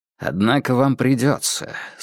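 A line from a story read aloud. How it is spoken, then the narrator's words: Calm. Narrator (Russian): спокойно ответил Холмс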